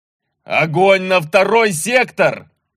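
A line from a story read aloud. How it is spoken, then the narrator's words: Roared. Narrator (Russian): проревел голос Севера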